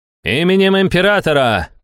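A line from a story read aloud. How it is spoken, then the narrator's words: Magically amplified shout. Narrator (Russian): прокричал Жерон, усилив свои слова магии воздуха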